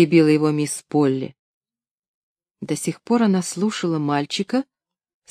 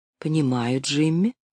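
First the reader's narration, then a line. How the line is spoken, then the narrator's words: Quiet reply. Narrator (Russian): тихо ответила мисс Полли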